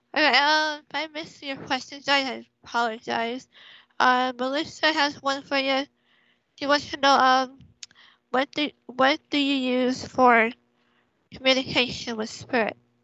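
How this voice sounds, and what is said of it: Hoarse, failing voice. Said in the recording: “Oh, there goes my voice. ... I'm losing my voice.”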